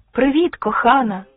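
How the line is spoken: Man's joyful shout from corridor. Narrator (Ukrainian): радісно вигукнув з коридору чоловік

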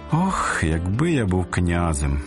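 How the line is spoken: Sighing stonecutter. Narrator (Ukrainian): зітхнув каменяр

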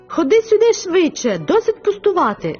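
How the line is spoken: Exclaiming. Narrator (Ukrainian): вигукнув Луїс

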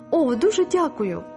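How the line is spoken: Exclaiming tearfully. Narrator (Ukrainian): Паула витираючи сльози, вигукнула

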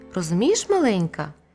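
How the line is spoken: Very gentle. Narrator (Ukrainian): лев промовив дуже-дуже лагідно

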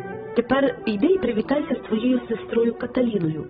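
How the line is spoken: Plain, father. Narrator (Ukrainian): сказав мій батько

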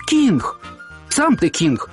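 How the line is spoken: Plain. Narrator (Ukrainian): сказав Сергій

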